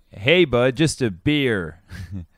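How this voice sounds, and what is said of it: Attempted American accent, sounds Canadian. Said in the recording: “I'm going to try and do an American accent ... I'm always coming out like sort of Canadian ... Manitobaish”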